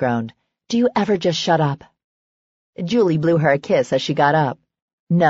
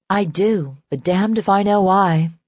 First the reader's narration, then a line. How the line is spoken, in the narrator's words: Serena said wearily